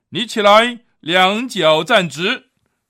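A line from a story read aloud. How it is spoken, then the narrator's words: Loud. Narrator (Chinese): 保罗大声说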